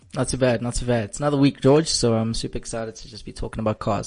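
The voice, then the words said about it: Slightly scratchy voice. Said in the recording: “My voice is a bit scratchy”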